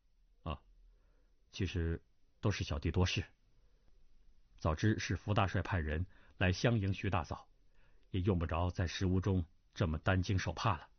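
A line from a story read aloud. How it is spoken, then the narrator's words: Flat calm. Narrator (Chinese): 淡淡的道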